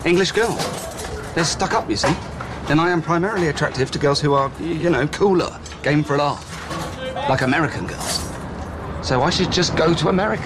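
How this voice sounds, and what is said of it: British accent. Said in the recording (French): “my cute British accent”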